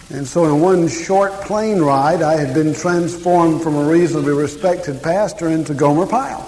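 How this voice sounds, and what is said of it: Southern American accent. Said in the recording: “this ridiculous accent ... this is God's country kind of accent ... this is a ridiculous accent”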